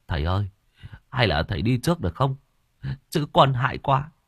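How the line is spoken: Trembling, frightened voice. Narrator (Vietnamese): Thằng Tùng nói bằng giọng run rẩy

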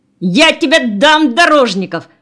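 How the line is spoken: Furious yelling. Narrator (Russian): заорал Никишов багровея

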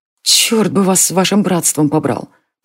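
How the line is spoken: Breathless mutter. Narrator (Russian): пробормотала она, прерывисто дыша

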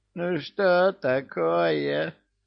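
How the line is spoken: Whining. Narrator (Russian): Захныкал домовой

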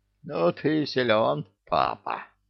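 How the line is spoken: Wheezed hoarsely. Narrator (Russian): прохрипела центральная

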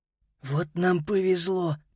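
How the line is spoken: Whisper. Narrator (Russian): прошептал Питер

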